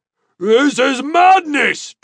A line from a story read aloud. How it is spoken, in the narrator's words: Tulok shouted